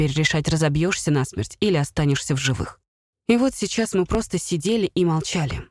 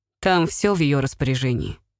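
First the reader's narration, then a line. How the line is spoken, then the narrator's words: Said through laughter. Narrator (Russian): сквозь смех проговорил я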